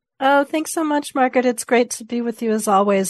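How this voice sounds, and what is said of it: Slightly hoarse voice. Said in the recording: “I'm joining you on being slightly hoarse.”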